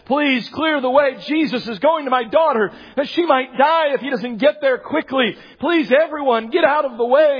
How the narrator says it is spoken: He's probably shouting on up ahead

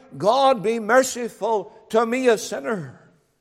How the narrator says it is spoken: the publican of old who cried out

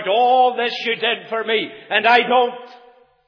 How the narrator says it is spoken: at the top of his voice, he cried out

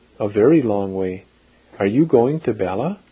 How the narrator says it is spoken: said the old man with a little laugh

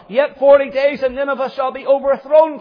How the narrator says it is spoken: cried Jonah

